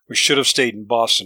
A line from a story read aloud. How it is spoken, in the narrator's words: he slurred